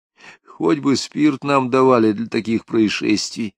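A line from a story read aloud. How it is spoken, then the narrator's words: Sighing. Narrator (Russian): вздохнул Криничный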